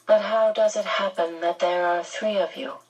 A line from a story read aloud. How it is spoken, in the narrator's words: the man asked